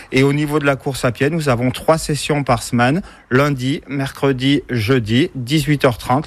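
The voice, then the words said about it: Cantal regional French accent. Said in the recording (French): “un bel accent qui nous vient. ... Du Cantal.”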